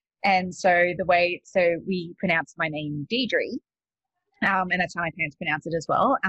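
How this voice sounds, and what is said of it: Australian accent. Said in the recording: “you can probably tell from my accent, I'm not actually from the States. I'm from Australia.”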